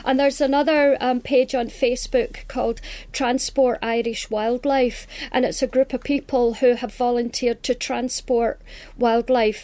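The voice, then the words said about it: Scottish accent. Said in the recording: “that beautiful Scottish accent ... I love that Scottish accent”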